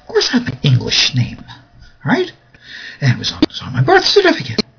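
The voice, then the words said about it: East Coast Long Island accent. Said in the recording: “I grew up on Long Island, New York. And I still haven't lost my good old East Coast accent.”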